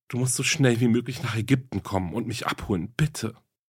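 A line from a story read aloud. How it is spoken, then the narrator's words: Tearful pleading woman. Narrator (German): flehte sie mit tränenerstickter Stimme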